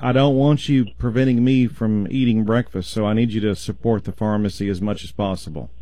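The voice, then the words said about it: Sarcastic tone. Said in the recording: “I'm being sarcastic,”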